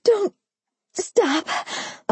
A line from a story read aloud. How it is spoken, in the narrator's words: I groaned loud, louder, and then louder still, unable to contain the sounds I was making